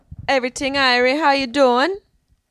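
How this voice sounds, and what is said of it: Put-on Jamaican accent. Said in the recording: “Answer with a Jamaican accent.”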